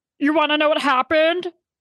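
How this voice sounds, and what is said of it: Weird Muppety Kermit-the-Frog-like voice. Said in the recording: “my horrible impression of Sheena ... It's this weird Kermit the Frog voice. I cannot get it. It's like so Muppety.”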